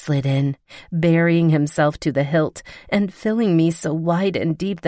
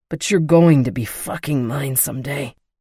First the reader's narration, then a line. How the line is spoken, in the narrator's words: he growled